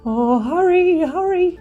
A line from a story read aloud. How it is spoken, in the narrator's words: he cried